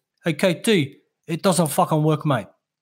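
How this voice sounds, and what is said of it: Put-on Lebanese accent. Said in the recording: “That's my Lebanese accent ... Yeah, it was good.”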